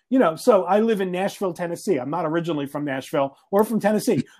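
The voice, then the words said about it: Northeastern US accent. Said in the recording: “I'm originally from the Northeast, as if you couldn't tell from my accent.”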